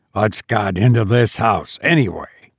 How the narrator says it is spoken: He growled

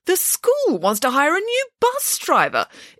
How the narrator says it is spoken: exclaimed Nanny Piggins

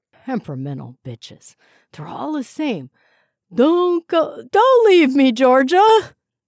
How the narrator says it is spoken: his wails grew fainter

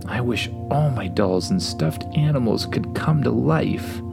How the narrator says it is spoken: whispered

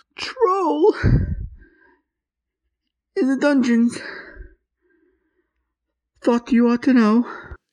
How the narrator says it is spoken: gasped

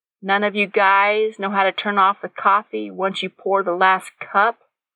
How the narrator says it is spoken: Nathan chuckled

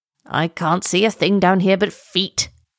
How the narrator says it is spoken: grumbled the turtle

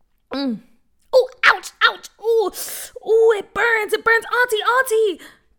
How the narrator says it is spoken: Bria yelped

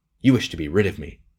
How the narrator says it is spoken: he cried fiercely

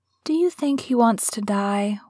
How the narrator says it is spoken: whispered Mary

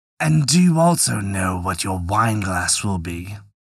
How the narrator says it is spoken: The devil made a wry face and growled, and said to the third

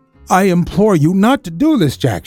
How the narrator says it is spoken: she cried

